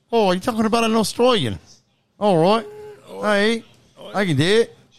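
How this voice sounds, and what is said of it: Attempted Australian accent, sounds Canadian. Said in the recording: “Give me your best Australian accent right now. ... You're starting to get it. You're getting it. ... No, it's Canadian.”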